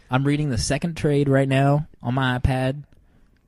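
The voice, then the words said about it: Put-on southern accent. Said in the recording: “What's with a southern accent when you say iPad?”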